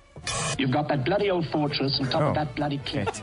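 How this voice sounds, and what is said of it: Put-on Australian accent. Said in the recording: “is he doing an Aussie accent?”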